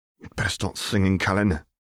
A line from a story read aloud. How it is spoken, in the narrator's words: Hermione said through gritted teeth